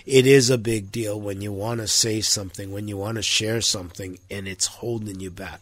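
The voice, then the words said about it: Congested, sore-throated voice with a cold. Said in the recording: “You can probably tell from my voice, got some sinus issues going, got a throat that's sore, got a cough that's persistent, but yeah, all the elements of a common cold”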